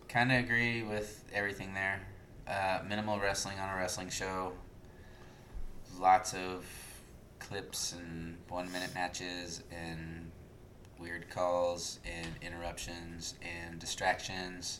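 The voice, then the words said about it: Very tired, low-energy voice. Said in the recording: “in my super tired voice”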